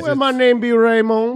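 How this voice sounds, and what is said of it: Put-on Creole Cajun accent. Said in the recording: “What's that accent? Is it a Cajun accent? ... Creole. ... It's French and hillbilly.”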